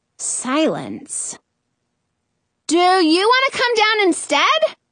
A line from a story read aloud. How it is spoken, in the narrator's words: I yell